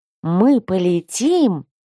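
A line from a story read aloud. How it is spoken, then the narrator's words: Breathless delight. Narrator (Russian): восторженно выдохнул один из первокурсников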